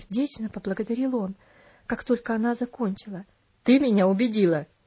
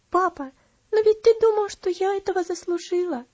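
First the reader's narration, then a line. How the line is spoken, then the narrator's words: Sobbing. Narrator (Russian): разрыдавшись, сказала она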